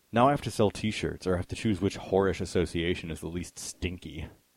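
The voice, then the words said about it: Moody, adolescent imitated voice. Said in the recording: “my Reznor impression ... So that is some moody adolescent Trent.”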